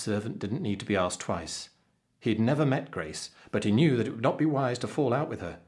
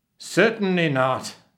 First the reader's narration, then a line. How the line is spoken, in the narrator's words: he roared